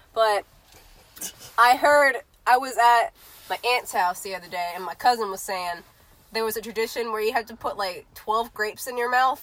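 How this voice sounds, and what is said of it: Congested voice from a cold. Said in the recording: “I have a cold, guys, if you couldn't tell ... So, I have a cold.”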